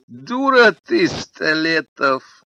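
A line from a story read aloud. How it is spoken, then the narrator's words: After laughing hard. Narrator (Russian): прохохотавшись, сказал Аркадий Заварзин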